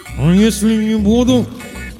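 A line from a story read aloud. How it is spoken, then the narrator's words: Muffled, strained through tape. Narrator (Russian): попытался выдавить я сквозь скотч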